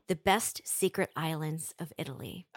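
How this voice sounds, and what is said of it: Sultry, seductive put-on voice. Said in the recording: “putting on my sexy voice”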